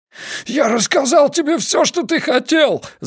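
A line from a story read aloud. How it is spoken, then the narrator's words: Man shouting while struggling. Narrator (Russian): закричал мужчина, пытаясь бороться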